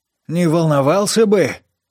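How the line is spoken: Growled. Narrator (Russian): прорычал Лакман

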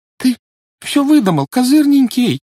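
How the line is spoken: Trembling, faltering voice. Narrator (Russian): дрожащим голосом пролепетала Жюли

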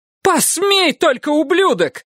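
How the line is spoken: Shouted. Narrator (Russian): крикнула Урсула

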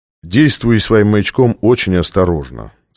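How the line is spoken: Plain. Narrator (Russian): сказал Стратмор

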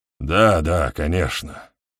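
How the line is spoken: Muttered reply. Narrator (Russian): бормочет в ответ Хоксен

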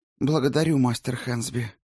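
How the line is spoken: Sighing. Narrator (Russian): вздохнула Альвийка

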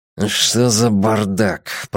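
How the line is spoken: Indistinct mutter through teeth. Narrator (Russian): пробормотал невнятно по-хорватски, затягивая зубами ремешки

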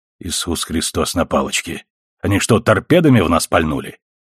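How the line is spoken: Through gritted teeth. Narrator (Russian): процедил Макдауэлл

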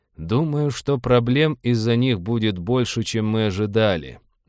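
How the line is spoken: Gloomy. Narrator (Russian): мрачно сказал Роджер

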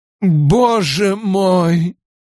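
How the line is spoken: Groaning. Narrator (Russian): простонал Ковен

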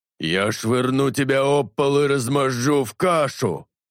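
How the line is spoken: Roar. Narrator (Russian): проревел Талос

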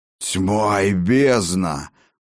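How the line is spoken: Stunned hoarse rasp. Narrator (Russian): прохрипел ошеломленный Ракот

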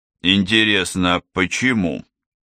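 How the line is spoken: Muttered under breath. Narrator (Russian): проворчал Спайсер себе под нос

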